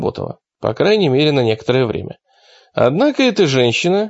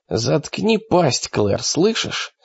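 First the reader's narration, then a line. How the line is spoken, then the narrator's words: Forced through gritted teeth. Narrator (Russian): сквозь зубы выдавил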